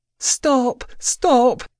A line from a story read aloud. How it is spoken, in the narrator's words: she wailed